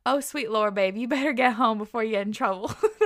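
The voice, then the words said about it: Put-on Southern US accent. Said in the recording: “in his southern accent ... That was probably wrong accent”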